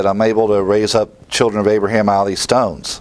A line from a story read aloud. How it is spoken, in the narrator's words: he says